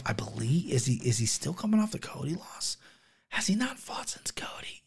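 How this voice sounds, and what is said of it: Whispering. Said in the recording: “I don't know why I'm whispering.”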